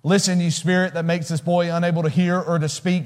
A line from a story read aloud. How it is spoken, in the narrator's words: he said